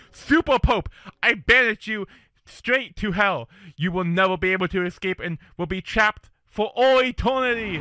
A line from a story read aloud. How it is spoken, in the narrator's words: Captain Jameson shouts